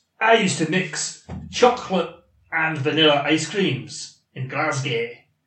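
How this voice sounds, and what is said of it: Put-on Scottish accent. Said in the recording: “I can't sustain a Scottish accent that long”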